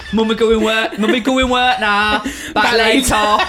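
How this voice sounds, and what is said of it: Funny imitated accent. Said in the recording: “Such a funny accent.”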